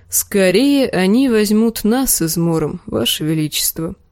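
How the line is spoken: Sad. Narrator (Russian): грустно молвил Серджурах

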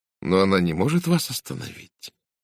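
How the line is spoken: Gentle objection. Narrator (Russian): мягко возразила Сара

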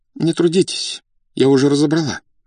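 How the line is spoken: Trembling voice. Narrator (Russian): сказала за спиной дрогнувшим голосом Зинаида Дмитриевна

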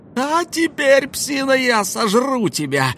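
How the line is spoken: Yelling. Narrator (Russian): заорала она

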